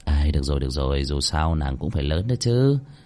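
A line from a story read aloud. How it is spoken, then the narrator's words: Muttering. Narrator (Vietnamese): Cơ Linh Vân lẩm bẩm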